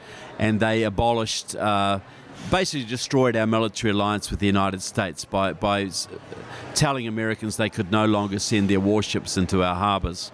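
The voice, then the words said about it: New Zealand accent. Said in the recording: “some of you may hear this southern accent, and that comes from New Zealand down in the South Pacific”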